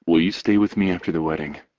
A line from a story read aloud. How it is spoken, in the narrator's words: He asks quietly